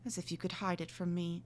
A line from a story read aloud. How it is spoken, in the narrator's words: said Lydgate, laying his hand tenderly